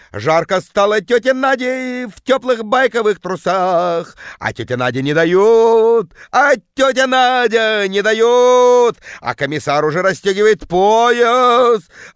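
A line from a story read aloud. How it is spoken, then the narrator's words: Woman bellowing deep bass. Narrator (Russian): орала тетка жутким басом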